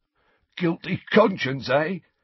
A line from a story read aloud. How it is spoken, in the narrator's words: he wheezed